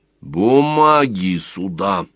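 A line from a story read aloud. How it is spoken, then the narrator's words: Metallic lowered command. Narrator (Russian): распорядился Сварог металлическим голосом, уже на полтона ниже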